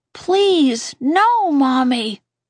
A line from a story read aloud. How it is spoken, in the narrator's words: I cried